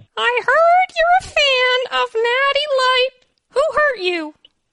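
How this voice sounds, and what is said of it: Playful dog character voice. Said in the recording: “That dog voice is magical.”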